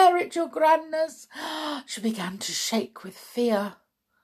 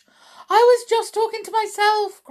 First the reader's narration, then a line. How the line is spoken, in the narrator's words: cried the wretched witch